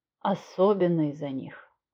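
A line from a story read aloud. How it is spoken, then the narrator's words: Gentle, smiling. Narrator (Russian): мягко улыбнулся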